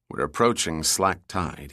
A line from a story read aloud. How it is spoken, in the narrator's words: said quietly